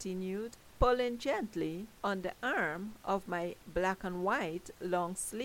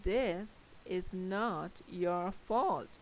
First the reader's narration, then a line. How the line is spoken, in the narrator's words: she said slowly